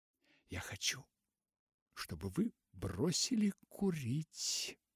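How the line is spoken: Whisper. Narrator (Russian): прошептала она

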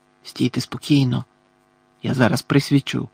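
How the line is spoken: Whispered. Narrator (Ukrainian): прошепотів Муді

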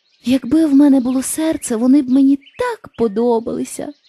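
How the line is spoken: Tin woodman sighing. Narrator (Ukrainian): зітхнув бляшаний лісоруб

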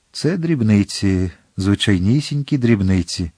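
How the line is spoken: Calm. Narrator (Ukrainian): Атос спокійно сказав

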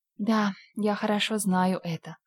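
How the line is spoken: Sad admission. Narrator (Russian): призналась Энн грустно

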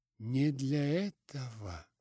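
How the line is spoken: Dejected voice. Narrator (Russian): повторил он упавшим голосом

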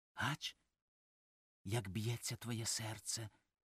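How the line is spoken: Whispered. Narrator (Ukrainian): прошепотіла

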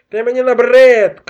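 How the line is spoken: Archmage shouting. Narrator (Ukrainian): крикнув архімаг

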